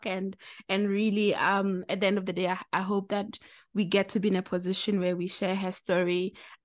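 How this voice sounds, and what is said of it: Excited voice. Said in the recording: “you can hear from my voice, I'm really excited.”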